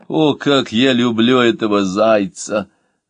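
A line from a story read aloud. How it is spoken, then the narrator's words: Moan. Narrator (Russian): Новакович простонал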